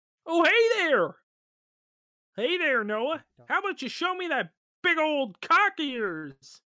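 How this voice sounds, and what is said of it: Kermit the Frog puppet voice. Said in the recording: “do a Kermit voice”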